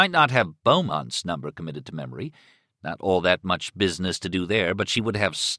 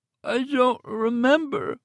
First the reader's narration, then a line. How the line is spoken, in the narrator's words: she moaned